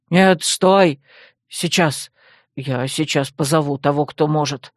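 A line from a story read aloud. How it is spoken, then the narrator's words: Frightened breathless gasp. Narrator (Russian): Выдохнул побледневший гном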